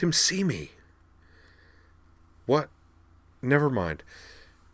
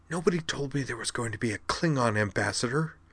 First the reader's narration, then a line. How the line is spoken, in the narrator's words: Belana Torres whispered urgently